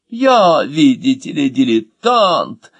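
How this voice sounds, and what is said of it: Mocking mimicry of another's voice. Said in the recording (Russian): “совсем не похоже передразнил”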